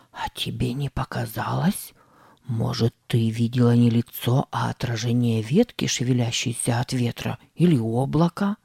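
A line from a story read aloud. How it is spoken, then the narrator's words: Whispering. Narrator (Russian): зашептал Сэм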